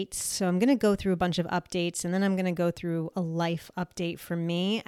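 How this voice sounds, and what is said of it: Nasal, crackly voice. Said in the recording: “my voice is probably off today. It probably doesn't sound the best. I might sound a little nasally. I might sound a little crackly. ... So my voice and all of that is not going to be the best.”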